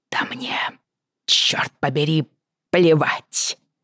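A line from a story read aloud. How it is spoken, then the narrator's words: Hissing while straining. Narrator (Russian): шипела, изо всех сил пытаясь освободиться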